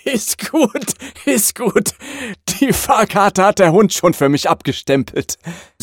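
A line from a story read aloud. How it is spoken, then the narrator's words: Laughing conductor. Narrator (German): sagt der Schaffner … lachend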